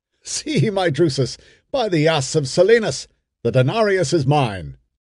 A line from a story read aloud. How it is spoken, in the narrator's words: saying with a laugh